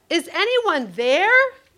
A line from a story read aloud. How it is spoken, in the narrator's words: yelled